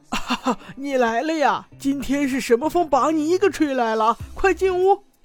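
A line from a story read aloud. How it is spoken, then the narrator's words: Old man laughing heartily. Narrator (Chinese): 老头子见到了久违的老朋友小五郎，立刻大笑道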